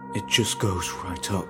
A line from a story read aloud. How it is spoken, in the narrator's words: whispered